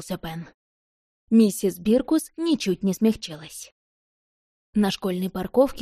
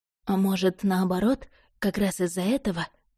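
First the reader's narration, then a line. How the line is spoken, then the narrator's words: Quiet. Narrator (Russian): тихо проговорила Рози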